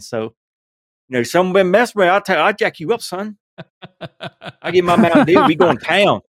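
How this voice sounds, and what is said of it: Exaggerated stereotypical Southern accent. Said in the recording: “stereotypical Southern accent ... I keep it in back pocket when I need to come on out every now and then.”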